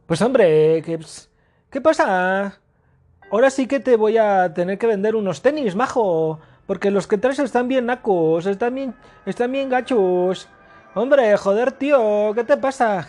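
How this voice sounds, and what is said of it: Put-on Spanish accent mixed with Mexico City slang. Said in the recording (Spanish): “¿Cómo será el, el acento de un español, pero que ha vivido en Tepito?”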